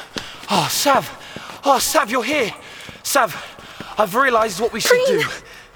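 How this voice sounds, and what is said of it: Out of breath, panting. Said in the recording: “out of breath”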